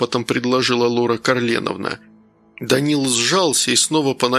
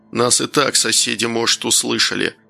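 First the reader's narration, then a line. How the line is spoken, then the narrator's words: Irritated, curt. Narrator (Russian): раздраженно бросил Клещеев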